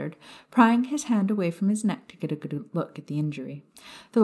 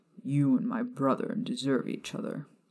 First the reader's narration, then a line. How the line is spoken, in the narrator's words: Regulus muttered